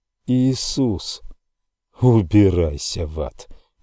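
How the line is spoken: Sad. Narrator (Russian): грустно сказал

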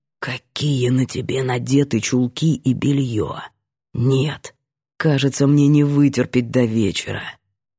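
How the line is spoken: Seductive hoarse whisper. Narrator (Russian): Искуситель хрипло прошептать

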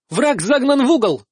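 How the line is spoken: Shout. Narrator (Russian): закричала Мариска

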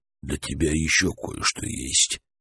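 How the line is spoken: Whisper in ear. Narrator (Russian): шепнул на ушко Забаве Гордей

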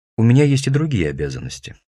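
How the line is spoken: Dry reply. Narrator (Russian): сухо отвечает она

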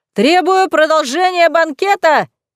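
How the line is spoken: Drunken shout, laughing. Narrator (Russian): закричала Хлойсиха и пьяно расхохоталась

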